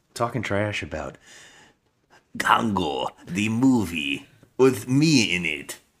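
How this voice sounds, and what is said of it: Close imitation of Tim Curry's accent. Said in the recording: “trying to do Tim Curry's accent in this movie ... I mean, it's close. I think you're actually doing it better than Tim Curry.”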